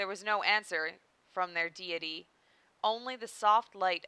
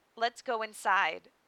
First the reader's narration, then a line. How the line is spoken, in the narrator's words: Sakura said, sighing softly